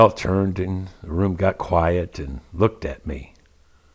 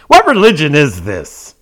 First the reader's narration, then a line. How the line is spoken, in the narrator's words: blurted out arrogantly